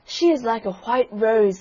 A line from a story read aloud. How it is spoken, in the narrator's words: they cried